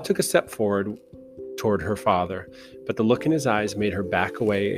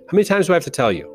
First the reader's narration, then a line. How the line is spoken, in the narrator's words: He never raised his voice to her